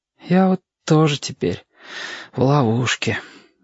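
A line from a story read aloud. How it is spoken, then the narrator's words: Sigh. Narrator (Russian): вздохнул Сашка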